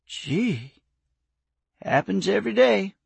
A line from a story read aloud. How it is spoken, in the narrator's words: the old man said with a sigh